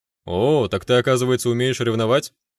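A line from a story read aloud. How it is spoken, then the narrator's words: Silent inner chuckle. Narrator (Russian): Мысленно хохотнул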